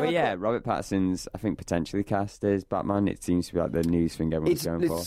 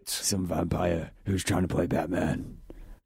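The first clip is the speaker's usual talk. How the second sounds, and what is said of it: Batman character voice impression. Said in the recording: “do that stupid voice ... the Batman impression”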